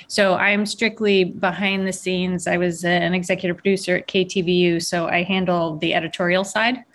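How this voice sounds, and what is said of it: New Jersey accent. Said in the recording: “I have a Jersey accent.”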